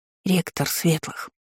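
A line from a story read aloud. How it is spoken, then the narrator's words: Whispering. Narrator (Russian): прошептала Иза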